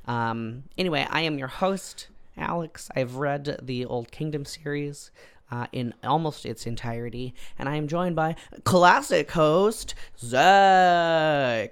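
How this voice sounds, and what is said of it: Croaky, hoarse voice. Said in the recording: “as you can tell, I was feeling a bit under the weather, and my voice has not entirely, still not at 100%... I sound like a croaky boy.”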